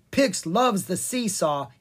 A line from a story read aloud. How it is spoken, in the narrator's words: he cried